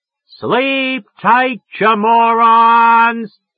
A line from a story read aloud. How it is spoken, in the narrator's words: I yelled at the top of my goddamn voice